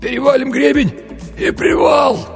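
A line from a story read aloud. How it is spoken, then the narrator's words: Hoarse wheeze. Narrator (Russian): прохрипел Винни-Пух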